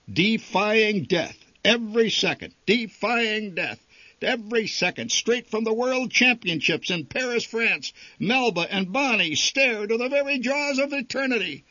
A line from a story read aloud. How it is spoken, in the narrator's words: yelled the barker